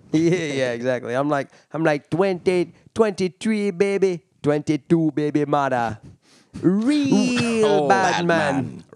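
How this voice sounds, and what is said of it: Put-on Jamaican accent. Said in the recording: “I'll block into a Jamaican accent”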